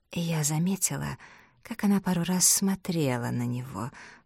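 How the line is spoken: Elderly woman muttering. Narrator (Russian): пробормотала пожилая дама

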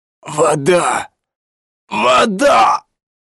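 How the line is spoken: Hoarse rasp. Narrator (Russian): прохрипел он

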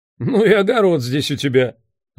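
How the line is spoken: Laughing. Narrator (Russian): засмеялся Сэм Риган

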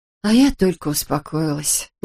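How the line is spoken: Sighing. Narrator (Russian): вздохнула Эбби

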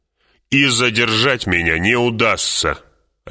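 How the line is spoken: Bark. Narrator (Russian): рявкнул полковник Башар

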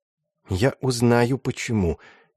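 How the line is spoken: Muttering under breath. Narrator (Russian): тихо пробормотал себе под нос Матиас Кручек

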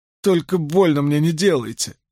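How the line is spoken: Whimpering. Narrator (Russian): захныкала Найниф

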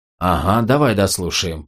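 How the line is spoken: Grumbling. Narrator (Russian): проворчал Клей

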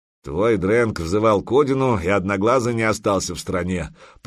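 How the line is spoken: Grumbled. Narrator (Russian): проворчал Бьернсон

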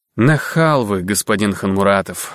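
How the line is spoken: Calm sigh, unfazed. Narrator (Russian): вздохнул Золотых без тени испуга или удивления

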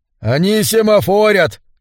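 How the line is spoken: Shouted from afar. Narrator (Russian): крикнул Хедригал с вершины надстройки на корме Грандоста

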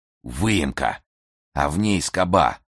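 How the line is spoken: Muffled reply. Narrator (Russian): глухо ответил Болотников

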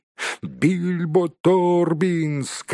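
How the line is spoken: Group shouting. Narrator (Russian): кричали они

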